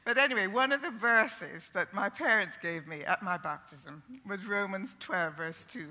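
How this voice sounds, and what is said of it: Speaks with a slight lilt. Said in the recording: “there's a lilt in my voice”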